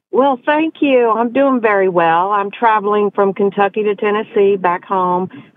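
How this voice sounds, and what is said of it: A charming regional accent. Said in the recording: “You have a darling accent.”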